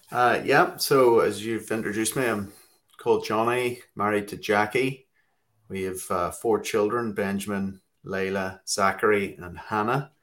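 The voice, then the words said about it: Northern Irish accent. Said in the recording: “My accent's from Belfast, Northern Ireland”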